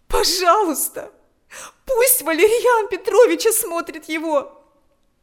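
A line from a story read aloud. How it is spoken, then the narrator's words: Pleading. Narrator (Russian): взмолилась она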